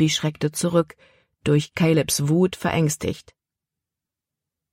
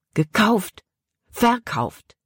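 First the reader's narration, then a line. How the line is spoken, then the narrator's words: Angry blurt. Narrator (German): Caleb stieß die Worte wütend hervor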